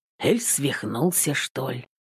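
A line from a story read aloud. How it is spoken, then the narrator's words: Grumbling. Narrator (Russian): пробурчал Трофим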